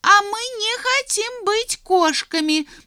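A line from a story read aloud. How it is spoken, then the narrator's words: Mice squeaking over each other. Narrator (Russian): наперебой пищали мышата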